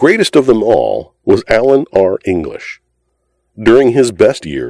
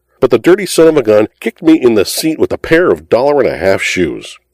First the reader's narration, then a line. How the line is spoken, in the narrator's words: he indignantly howled to the denizens of Allen Street